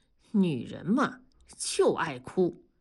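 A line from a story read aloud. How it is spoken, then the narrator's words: Sighing. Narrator (Chinese): 同志感叹地说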